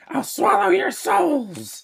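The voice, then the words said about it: Monster character voice. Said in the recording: “doing the Henrietta voice”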